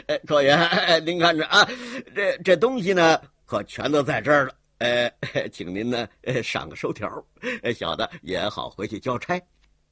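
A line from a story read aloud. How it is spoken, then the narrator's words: Rapid speech, hearty laugh. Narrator (Chinese): 他一口气说了这么些，又是哈哈一笑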